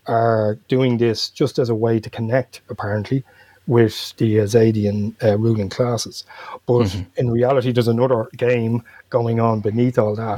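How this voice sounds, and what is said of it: Dublin Irish accent. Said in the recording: “that's the Dublin accent showing there. When I say theme, I mean theme, not team. ... it's just a Dublin accent”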